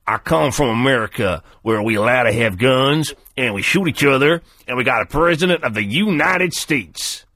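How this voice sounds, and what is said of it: Put-on American accent. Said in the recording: “English actors doing American accents. Can you do an American accent ... It's hard to do ... it's a hard accent ... It's a very hard accent to do”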